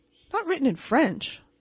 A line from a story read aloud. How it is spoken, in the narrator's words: exclaimed